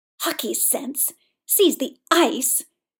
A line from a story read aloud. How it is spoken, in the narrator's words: Victor spat